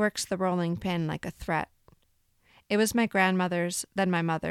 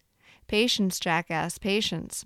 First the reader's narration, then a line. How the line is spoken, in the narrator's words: my mother says